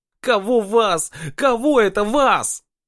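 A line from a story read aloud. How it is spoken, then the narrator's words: Sudden shrill piercing yell. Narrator (Russian): неожиданно завопил Вадик тонко и пронзительно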